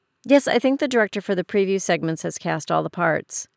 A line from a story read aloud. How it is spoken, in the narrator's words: Leah said quickly